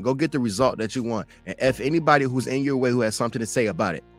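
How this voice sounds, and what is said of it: Raised, loud passionate voice. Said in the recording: “Sorry if I raised my voice.”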